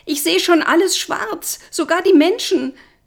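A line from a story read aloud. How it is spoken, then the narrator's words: Screamed. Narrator (German): schrie ich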